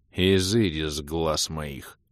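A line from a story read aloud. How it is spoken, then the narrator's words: Curt grumble. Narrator (Russian): буркнул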